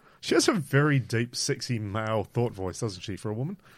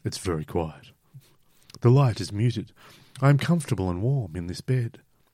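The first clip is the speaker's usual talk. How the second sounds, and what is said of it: Put-on sexy reading voice. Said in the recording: “Sexy voice on.”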